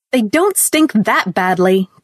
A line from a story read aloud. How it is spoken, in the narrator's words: cried Ruth bitterly